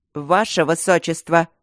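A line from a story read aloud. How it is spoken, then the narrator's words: Barked. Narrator (Russian): рявкнул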